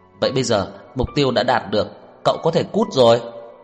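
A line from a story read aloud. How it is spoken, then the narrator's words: Muffled shout. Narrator (Vietnamese): Tô Lạc Hoành cúi đầu lấy tay che điện thoại hét lên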